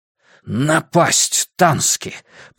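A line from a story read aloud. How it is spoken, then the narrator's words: Hiss. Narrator (Russian): прошипел Грюнвальд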